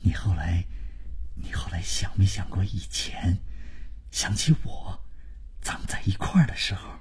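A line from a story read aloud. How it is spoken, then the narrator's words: Low sentimental voice. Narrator (Chinese): 万征就是开始煽情，他压低了声音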